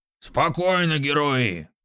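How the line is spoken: Booming. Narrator (Russian): прогудел он

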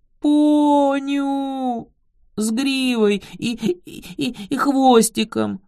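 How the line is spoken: Sobbing babble. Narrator (Russian): Рыдая, пролепетала сестра

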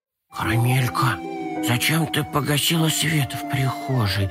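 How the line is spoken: Whispering. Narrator (Russian): зашептал Компот

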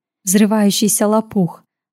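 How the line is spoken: Whispered with a smile. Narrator (Russian): с улыбкой прошептала Ашади

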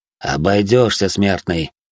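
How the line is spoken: Haughty snort. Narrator (Russian): надменно хмыкнул он

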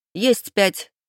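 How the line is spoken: Shout. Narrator (Russian): крикнула Майя

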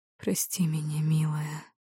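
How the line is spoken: Muffled whisper into pillow. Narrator (Russian): прошептал он, уткнувшись лицом в подушку

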